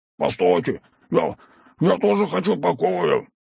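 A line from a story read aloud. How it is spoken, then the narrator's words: Shouted. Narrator (Russian): выкрикнул он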